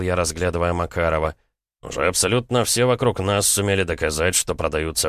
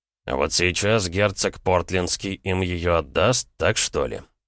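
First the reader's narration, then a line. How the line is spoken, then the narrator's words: Skeptical snort. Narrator (Russian): Я скептически хмыкнул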